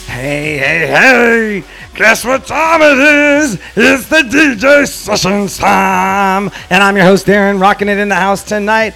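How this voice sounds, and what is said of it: Imitation of cartoon character Fat Albert. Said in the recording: “I was trying to do my best impression of Fat Albert there, but maybe it didn't work out.”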